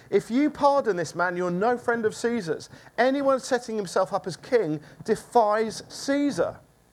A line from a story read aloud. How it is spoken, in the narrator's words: the Jews shouted at him